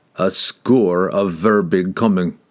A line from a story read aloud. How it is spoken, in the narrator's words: groaned Wulfgar